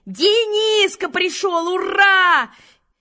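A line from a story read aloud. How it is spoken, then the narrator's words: Group shouting. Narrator (Russian): все закричали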